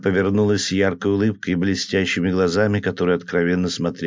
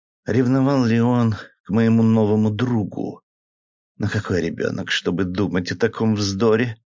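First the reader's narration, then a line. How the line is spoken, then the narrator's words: Soft, happy, shy laughter. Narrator (Russian): Она рассмеялась мягко и счастливо, с восхитительным оттенком застенчивости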